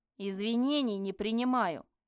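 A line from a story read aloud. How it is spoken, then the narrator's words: Feigned irritated bark. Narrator (Russian): рявкнула я в ответ, изображая раздражение разбуженного человека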